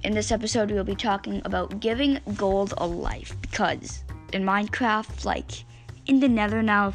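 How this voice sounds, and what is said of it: Scratchy voice from a cold. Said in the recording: “I have a bit of a cold today, so my voice sounds a bit scratchy”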